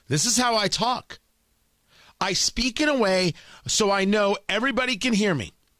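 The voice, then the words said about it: Loud, forceful speaking voice. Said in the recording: “speak in a loud voice ... why are you always yelling on TV? ... why are you always yelling on radio?”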